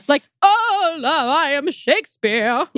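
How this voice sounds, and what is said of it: Mock Shakespearean theatrical voice. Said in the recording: “in a Shakespearean voice ... I didn't do a very good job.”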